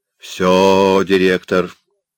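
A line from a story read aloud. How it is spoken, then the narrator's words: Cheerful. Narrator (Russian): весело сказал младший из плотников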